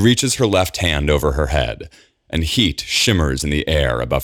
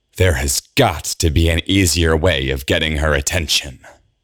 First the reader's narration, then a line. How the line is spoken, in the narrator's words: hisses